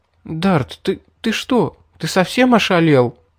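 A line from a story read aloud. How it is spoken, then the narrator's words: Stammering question. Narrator (Russian): запинаясь, спросила пришедшая в себя Мэри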